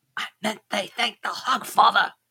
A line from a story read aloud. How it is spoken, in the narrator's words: hissed